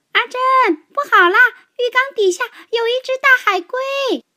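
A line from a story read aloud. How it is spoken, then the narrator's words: Panicked shout. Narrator (Chinese): 他慌里慌张的……叫道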